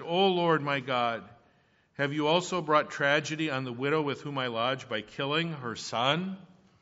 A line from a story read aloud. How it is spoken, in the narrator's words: he cried out to the Lord and said